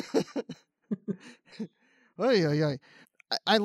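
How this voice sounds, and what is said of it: Usual voice. Nothing is said of it.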